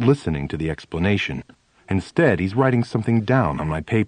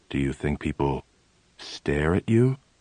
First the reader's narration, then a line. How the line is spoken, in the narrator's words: in a low, serious tone, he says